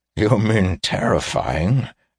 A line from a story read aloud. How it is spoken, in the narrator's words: asked Driskin with an awkward chuckle that was clearly an effort to avoid offending Weir